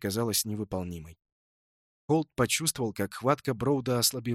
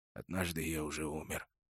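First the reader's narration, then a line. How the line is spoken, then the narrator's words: Hoarse. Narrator (Russian): прохрипел Броуд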